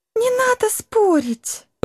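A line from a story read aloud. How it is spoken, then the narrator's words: Young woman pleading. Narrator (Russian): взмолилась девушка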